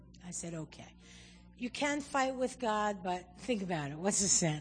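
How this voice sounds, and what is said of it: Usual voice. Nothing is said of it.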